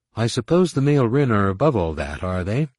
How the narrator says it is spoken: Tahiri said dryly

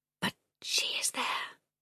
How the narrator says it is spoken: the girl whispered

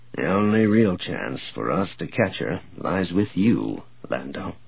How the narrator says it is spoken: Grayson said softly

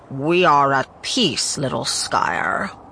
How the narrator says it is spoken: Balder hissed

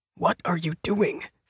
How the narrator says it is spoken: Finn whispered

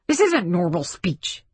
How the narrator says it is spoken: blurted Spidle

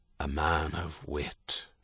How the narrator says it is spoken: Herity said, but his voice was bitter

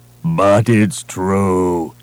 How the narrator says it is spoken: he moaned

